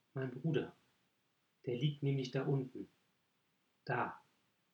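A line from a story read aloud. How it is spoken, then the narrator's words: Very quiet. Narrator (German): sagte er ganz leise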